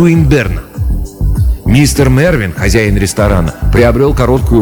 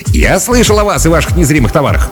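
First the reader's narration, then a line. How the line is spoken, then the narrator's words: Small man, beginning. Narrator (Russian): начал Линд, маленький краснолицый человек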